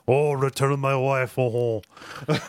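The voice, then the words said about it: Put-on thick French accent. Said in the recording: “talking to the guards in this very thick French accent”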